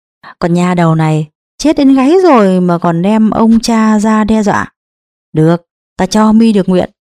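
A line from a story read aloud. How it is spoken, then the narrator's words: Cold sneering laugh. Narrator (Vietnamese): Đại Bằng cười nhạt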